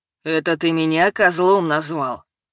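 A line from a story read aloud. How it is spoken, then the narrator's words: Words through gritted teeth. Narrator (Russian): Процедил Вася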